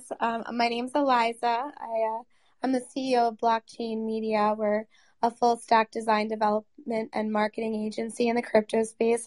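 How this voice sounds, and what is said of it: Hoarse, sick-sounding voice. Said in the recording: “Sorry for my voice. I have bronchitis.”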